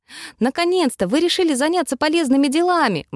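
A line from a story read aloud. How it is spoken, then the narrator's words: Exclaimed. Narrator (Russian): воскликнул он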